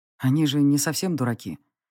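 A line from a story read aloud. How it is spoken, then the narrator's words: Quiet remark. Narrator (Russian): тихо заметил он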